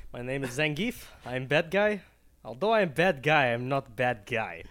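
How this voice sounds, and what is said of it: Character voice with put-on accent. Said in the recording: “You nailed that accent.”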